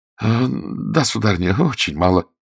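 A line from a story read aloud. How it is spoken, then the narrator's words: Stammering mumble. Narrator (Russian): пробормотал Мержи, запинаясь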